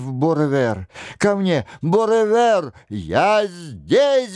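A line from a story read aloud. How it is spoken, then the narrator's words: Piano roaring. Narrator (Russian): взревел рояль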